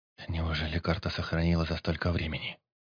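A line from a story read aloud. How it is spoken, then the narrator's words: Soft whisper. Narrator (Russian): негромко прошептал Алекс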